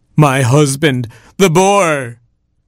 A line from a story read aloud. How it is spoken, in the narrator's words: cried Beauty